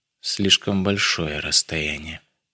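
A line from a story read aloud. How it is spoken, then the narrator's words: Whisper. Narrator (Russian): прошептала она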